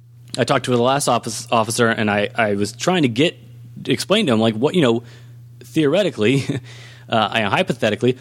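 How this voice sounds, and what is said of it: Hoarse, strained voice. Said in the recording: “I'm losing my voice here”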